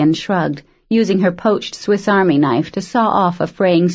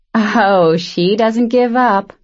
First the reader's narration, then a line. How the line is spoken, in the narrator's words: Arian laughed